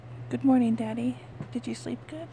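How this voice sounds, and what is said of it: Crackly, rough morning voice. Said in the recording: “my voice is a little crackly this morning”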